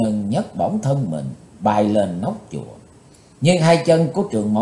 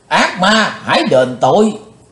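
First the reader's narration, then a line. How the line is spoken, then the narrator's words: Loud shout. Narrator (Vietnamese): Trường Mộng Giả Tiên dục quát lớn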